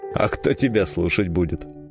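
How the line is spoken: Contemptuous snort. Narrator (Russian): презрительно фыркнул Лузга

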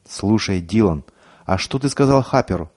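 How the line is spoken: Suddenly quiet question. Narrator (Russian): неожиданно тихо спросил Шефер

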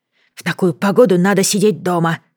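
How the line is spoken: Grumbling. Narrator (Russian): ворчала она, пытаясь взбодриться

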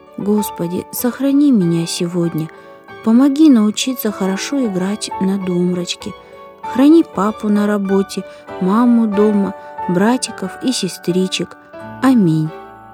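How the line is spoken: Whispered prayer. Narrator (Russian): прошептала

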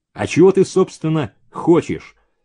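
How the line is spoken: Sharp question. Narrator (Russian): резко спросил Максимов

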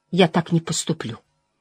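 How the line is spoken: Quiet but stubborn. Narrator (Russian): тихо, но упрямо произнесла

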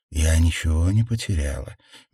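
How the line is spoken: Soft woman. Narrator (Russian): мягко ответила женщина

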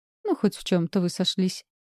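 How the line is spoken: Giggling. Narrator (Russian): хихикнула Реми

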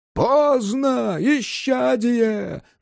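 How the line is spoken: Choir singers howling. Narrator (Russian): взвыли певчие

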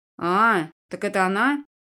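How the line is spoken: Young man snorting. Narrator (Russian): Парень хмыкнул

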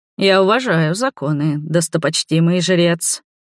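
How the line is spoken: Oily, falsely respectful tone. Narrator (Russian): произнес елейным тоном, полным ложного уважения и лести

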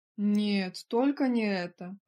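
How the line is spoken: Groaning. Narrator (Russian): простонал Эдвард

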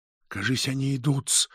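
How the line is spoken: Sudden whisper. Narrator (Russian): шепнул вдруг Петр

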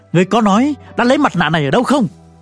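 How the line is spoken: Emperor shouting. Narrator (Vietnamese): Thiên Hoàng quát

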